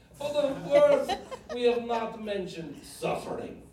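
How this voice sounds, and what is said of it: Put-on Polish accent, imitating John Paul II. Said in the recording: “I'm trying to do a Polish accent”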